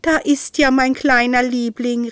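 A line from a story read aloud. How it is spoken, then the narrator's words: Called out. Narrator (German): rief Isolde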